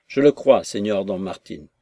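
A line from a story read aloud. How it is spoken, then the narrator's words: Gruff tone. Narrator (French): fit-il d'un ton bourru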